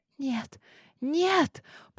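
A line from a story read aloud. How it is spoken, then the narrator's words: Whispered. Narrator (Russian): прошептала она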